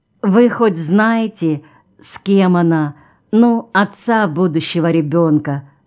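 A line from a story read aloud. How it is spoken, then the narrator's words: Plain. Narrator (Russian): спросила она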